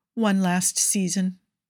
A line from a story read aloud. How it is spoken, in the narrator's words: he says, and his voice is steady